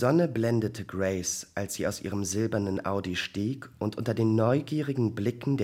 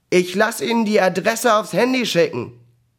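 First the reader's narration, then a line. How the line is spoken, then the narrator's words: Calling after someone. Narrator (German): Ihr neuer Chef rief ihr noch hinterher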